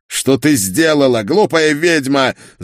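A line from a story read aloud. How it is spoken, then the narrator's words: Spluttering furious yell. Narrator (Russian): заорал он, брызгая слюной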